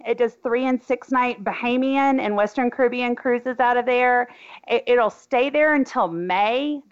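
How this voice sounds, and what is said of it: Arkansan Southern American accent. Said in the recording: “my Arkansan accent”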